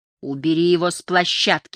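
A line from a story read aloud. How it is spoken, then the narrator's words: Insistent, fairly loud. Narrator (Russian): настаивала Лайла, уверенная, что ее голос звучит достаточно громко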